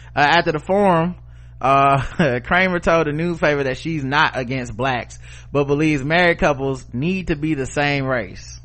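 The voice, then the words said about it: Southern American accent. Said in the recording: “my accent, you know, I'm from ... the South”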